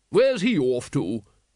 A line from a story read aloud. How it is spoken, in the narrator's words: boomed Lady Ramkin